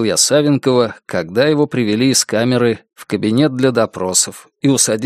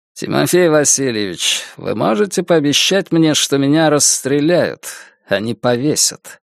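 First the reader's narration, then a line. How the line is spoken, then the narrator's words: Calm. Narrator (Russian): спокойно произнес лидер боевой организации эсеров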